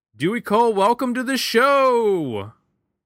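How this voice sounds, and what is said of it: Excited game-show announcer voice. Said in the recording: “doing my excited announcer voice, like you're coming down the aisle on The Price is Right ... You really picked up the energy.”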